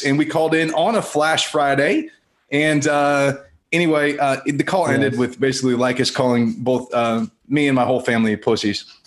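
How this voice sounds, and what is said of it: Polished radio announcer voice. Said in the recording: “You have this beautiful radio voice ... got a better radio voice than any of us.”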